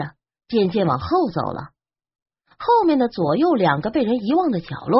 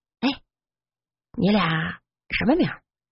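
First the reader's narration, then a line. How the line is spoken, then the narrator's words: Quiet question. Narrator (Chinese): 小声问着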